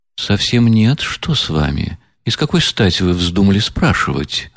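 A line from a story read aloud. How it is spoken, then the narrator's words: Quiet, serious, slightly surprised. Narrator (Russian): ответила она тихо и серьезно, и как бы с некоторым удивлением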